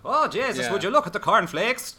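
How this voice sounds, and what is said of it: Put-on Irish accent, shouting. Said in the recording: “speak in an Irish accent ... the kind of Irish accent from Waking Ned ... just shouting around the shop”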